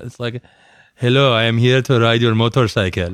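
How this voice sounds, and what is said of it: Suave put-on Iranian accent. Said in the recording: “the Iranian accent's too like suave for that”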